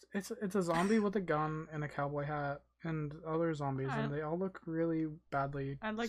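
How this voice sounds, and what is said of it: Usual voice. Nothing is said of it.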